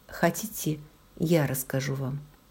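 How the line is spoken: Quiet question. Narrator (Russian): тихо спросил

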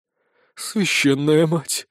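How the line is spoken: Relieved exhale. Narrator (Russian): с облегчением выдохнула она

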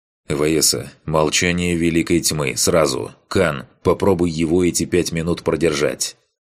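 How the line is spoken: Rapid speech over channel. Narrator (Russian): Быстро заговорил я в канал

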